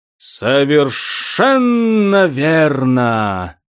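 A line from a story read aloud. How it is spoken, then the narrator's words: Hiss from deep tombs. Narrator (Russian): прошипел голос Саван де саркофага из глубоких гробниц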